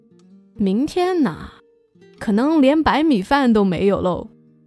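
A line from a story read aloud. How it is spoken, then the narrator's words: Hearty laughing reply. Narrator (Chinese): 外婆就哈哈大笑着回答说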